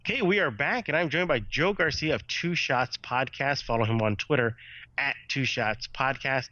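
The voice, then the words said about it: Congested voice from a cold. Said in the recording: “I am hurting with this cold right now, as pretty much everybody can hear in my voice.”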